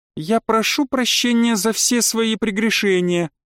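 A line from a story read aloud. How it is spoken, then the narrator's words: Feigned pleading. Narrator (Russian): деланно взмолилась Альда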